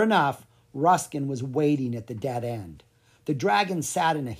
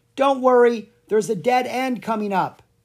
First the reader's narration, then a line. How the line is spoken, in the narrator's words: Lucas yelled over his shoulder